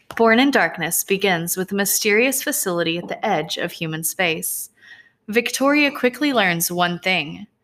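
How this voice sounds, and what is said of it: Teacher's reading-aloud voice. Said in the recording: “do my teacher voice? ... Teacher voice activated.”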